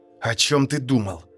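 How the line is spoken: Hissing. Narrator (Russian): прошипел

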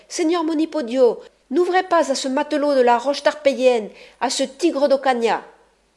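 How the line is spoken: Exclaiming. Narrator (French): s'écria-t-elle

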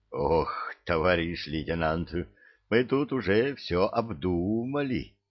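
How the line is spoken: Groaning. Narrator (Russian): Простонал Ларев

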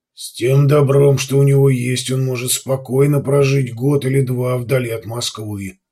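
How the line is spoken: Grumbling. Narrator (Russian): пробурчал де Лаэрт

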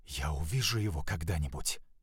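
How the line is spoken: Whispering. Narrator (Russian): прошептал Климент

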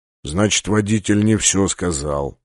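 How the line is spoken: Gruff mutter. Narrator (Russian): буркнул полубой

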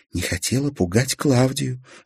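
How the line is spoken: Quiet. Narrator (Russian): ответила Салли тихо

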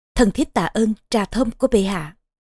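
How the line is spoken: Soft laugh, queen. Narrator (Vietnamese): Vương hậu cười khẽ mà nói

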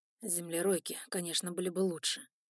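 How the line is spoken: Grumbling. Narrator (Russian): пробурчал Эван Байринг

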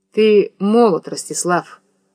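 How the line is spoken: Dry. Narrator (Russian): сухо сказал Никита

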